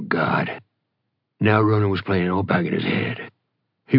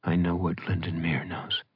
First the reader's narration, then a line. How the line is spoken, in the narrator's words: Bride said quietly